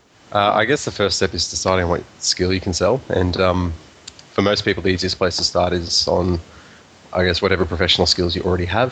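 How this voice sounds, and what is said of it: Australian accent. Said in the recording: “you may have picked up on that accent. He's joining us all the way from Australia”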